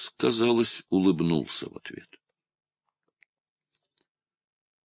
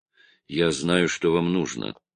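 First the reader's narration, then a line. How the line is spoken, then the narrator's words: Plain. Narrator (Russian): сказал Стрек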